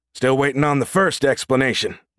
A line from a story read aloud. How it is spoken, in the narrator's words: Nash growled